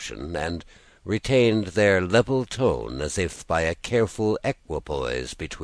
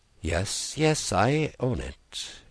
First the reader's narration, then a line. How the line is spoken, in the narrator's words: she cried under her breath, with a drowsy fervour of manner and tone which was quite peculiar to her